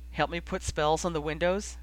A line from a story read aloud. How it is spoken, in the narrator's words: She asked, her voice still slightly choked